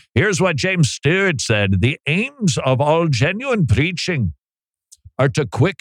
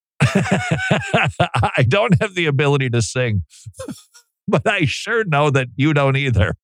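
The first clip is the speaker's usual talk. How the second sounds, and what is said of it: Bad put-on Scottish accent. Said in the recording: “I just heard myself doing a Scottish accent and I was repulsed by it. That's how bad my Scott.”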